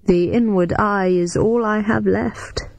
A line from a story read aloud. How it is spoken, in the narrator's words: said wistfully, the smile leaving his stern features